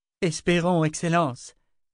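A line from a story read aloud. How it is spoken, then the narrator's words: Exclaimed in unison. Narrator (French): s'écrièrent en chœur Ulyssia et Armina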